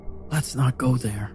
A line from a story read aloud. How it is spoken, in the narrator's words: I said quietly